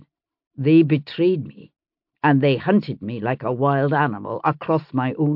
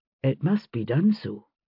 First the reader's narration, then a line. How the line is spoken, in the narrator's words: he said quietly